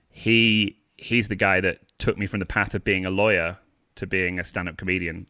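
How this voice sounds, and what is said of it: A lovely accent. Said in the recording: “What a lovely accent! That's that's delicious.”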